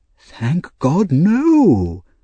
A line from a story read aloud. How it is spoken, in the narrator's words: cried the doctor with great feeling